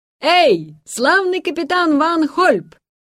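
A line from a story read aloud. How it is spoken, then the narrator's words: Shouting in Dutch. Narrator (Russian): крикнул Ламберт по-голландски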